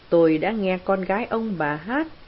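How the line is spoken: Plain. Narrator (Vietnamese): Raoul nói

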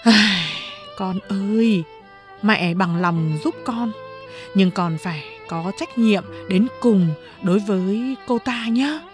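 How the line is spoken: Sighing. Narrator (Vietnamese): Lâm Lam thở dài một hơi rồi nói

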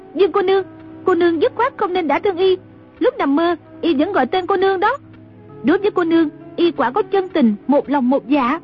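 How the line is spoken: Cried out. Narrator (Vietnamese): Trung Linh la lên

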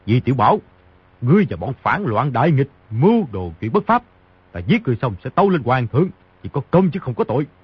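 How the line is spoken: Angry shout. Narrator (Vietnamese): Ngô Tâm Quế giận dữ quát

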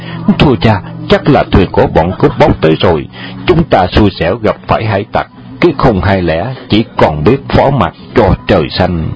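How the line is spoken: Frightened whisper. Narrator (Vietnamese): Hương Điệp sợ hãi, bàng hoàng kề tai cha nói nhỏ

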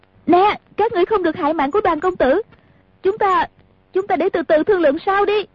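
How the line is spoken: Loud shout, female. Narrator (Vietnamese): Nàng lớn tiếng la lên

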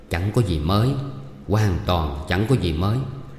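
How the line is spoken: Barely audible woman's reply. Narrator (Vietnamese): Lương phu nhân đáp rất khẽ, chỉ vừa đủ nghe

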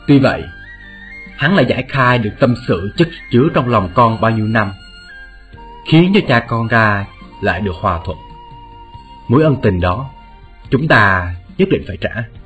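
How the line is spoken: Smiling, tender. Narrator (Vietnamese): Vạn Nhân Vãn mỉm cười nói

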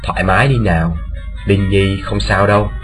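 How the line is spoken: Softly, soothing. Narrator (Vietnamese): khe khẽ bảo

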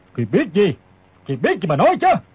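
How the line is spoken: Old man's shouted question. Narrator (Vietnamese): Lão quát hỏi

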